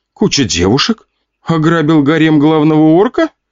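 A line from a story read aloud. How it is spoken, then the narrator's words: Giggling. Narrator (Russian): хихикала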